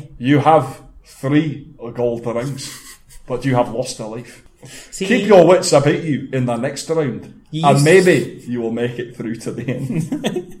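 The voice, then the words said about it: Scottish-accented impression of TV host. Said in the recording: “the Scottish guy with the long hair who would go ... I'm just doing your impression of the guy, from Raven”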